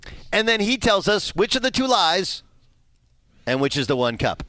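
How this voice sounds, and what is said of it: Usual voice. Nothing is said of it.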